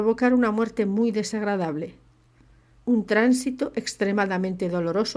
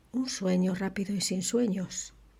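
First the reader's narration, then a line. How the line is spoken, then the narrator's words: Murmured. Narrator (Spanish): murmuró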